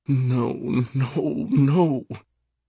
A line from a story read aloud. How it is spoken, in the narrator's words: Sophia moan